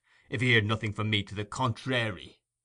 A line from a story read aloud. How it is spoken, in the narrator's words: rejoined Sikes in a surly voice